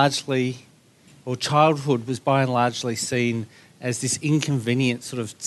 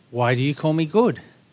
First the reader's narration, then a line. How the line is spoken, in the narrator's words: Jesus asks